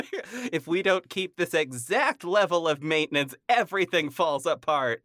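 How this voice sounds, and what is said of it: Imitates another person's voice. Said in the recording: “my John Mulaney impression ... That was really good. That was a startlingly good John Mulaney.”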